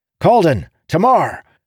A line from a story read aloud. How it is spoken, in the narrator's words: he yelled